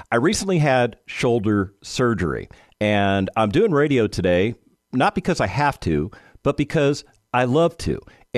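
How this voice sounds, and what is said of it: Nasal, congested-sounding voice. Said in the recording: “I sounded a little bit nasally ... pardon my voice. I apologize for the nasally sound.”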